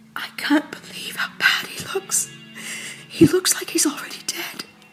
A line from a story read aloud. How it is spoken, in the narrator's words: she whispered